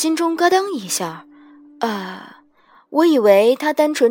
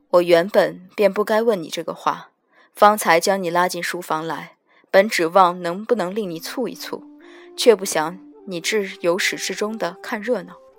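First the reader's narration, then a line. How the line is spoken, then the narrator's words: Flat after long silence. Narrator (Chinese): 他沉默良久 半晌才淡淡道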